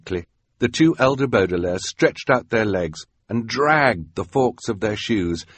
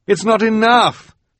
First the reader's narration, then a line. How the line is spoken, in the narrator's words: Klaus cried